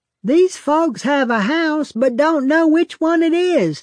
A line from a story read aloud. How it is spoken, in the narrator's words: a homeowner shouting over his shoulder into the next room